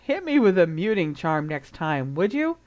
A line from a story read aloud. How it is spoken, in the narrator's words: Harry gave a short laugh